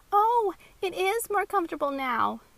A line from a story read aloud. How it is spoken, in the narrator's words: Maxie exclaimed